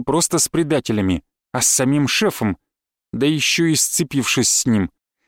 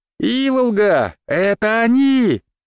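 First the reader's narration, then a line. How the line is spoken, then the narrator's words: Child shouting. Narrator (Russian): Девочка крикнула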